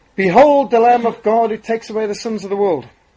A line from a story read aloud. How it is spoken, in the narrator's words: Testing the acoustics in the vast agricultural hall, Spurgeon shouted